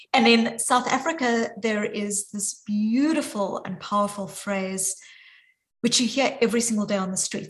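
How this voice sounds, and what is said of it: Strong South African accent. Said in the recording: “you can hear from my accent, even though I'm joining from Boston, that my accent is very deeply South African”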